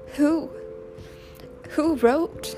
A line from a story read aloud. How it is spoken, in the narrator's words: sobbed Francie